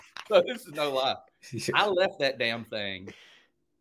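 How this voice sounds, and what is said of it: Usual voice. Nothing is said of it.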